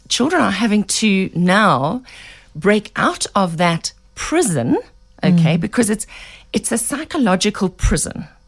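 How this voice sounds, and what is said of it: Hoarse, croaky throat. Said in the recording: “excuse my voice, I've got such a frog in my throat”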